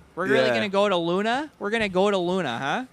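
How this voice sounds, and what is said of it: Put-on Milwaukee accent. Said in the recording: “Everyone had a fucking Milwaukee accent in my imagination, too, the whole time.”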